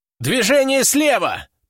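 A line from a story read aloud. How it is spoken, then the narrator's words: Shouting. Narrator (Russian): прокричал кто-то из бойцов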